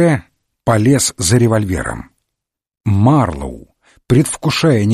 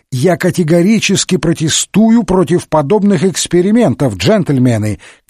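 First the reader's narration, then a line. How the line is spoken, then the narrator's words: Shouted. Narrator (Russian): крикнул он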